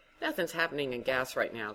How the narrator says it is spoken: Candace said

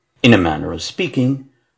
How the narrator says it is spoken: Holmes replied playfully

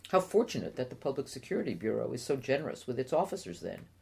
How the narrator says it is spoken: Sadiq murmured

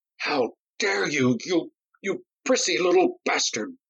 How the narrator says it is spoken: Noddy cried

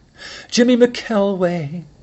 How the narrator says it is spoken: Penny said with a sigh

